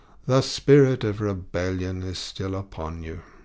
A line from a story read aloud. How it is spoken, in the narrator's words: sighed the ecclesiastic